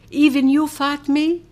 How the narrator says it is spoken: I sobbed

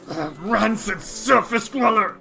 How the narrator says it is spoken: snarls and says

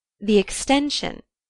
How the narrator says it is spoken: said Mrs

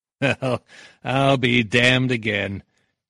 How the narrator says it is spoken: Nitty laughed

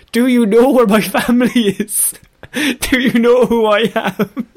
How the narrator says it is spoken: The person in ninja garb was repeatedly shouting

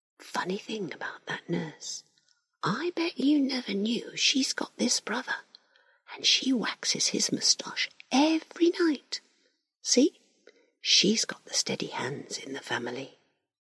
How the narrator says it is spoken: Larry whispers

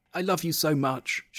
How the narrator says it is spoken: cried

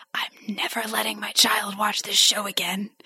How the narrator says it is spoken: the Shadow Demons whisper

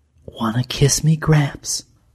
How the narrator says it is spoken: murmured

